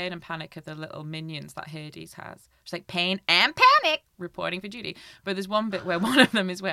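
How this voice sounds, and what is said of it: Usual voice. Nothing is said of it.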